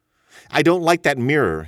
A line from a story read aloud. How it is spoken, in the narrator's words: he said